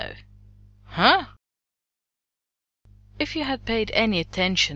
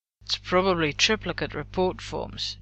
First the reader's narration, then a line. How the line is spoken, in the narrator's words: John muttered darkly